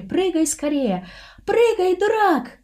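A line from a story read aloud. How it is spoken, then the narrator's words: Shrieked. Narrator (Russian): взвизгнула Таиска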